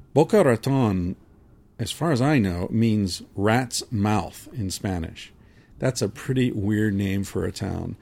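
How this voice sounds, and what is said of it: Speaker with a funny accent. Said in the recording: “I have a funny accent.”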